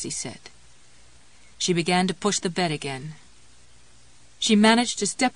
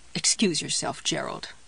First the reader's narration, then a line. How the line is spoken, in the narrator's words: muttered